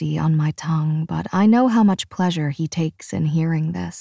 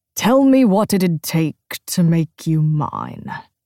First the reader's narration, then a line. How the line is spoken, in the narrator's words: he slurred